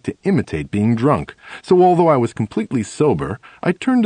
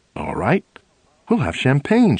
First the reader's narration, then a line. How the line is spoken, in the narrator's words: she says happily